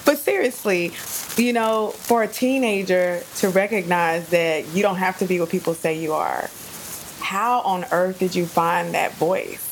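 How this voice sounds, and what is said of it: Dallas Texas accent. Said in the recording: “I think my Dallas accent is coming out in this episode. I got to keep that at bay.”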